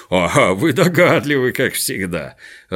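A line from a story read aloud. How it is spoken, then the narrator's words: Laughing. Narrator (Russian): рассмеялся Крабс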